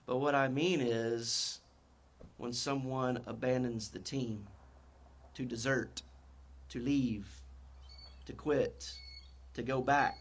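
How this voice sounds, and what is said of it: North Carolina accent. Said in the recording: “My North Carolina accent sometimes doesn't allow me to enunciate words very well.”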